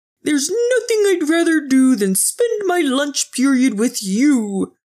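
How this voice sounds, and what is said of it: Purple dinosaur character voice. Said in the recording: “in his purple dinosaur voice”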